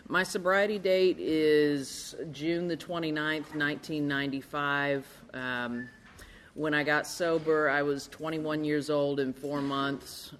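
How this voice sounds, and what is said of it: Arkansas accent. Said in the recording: “the accent's from Arkansas”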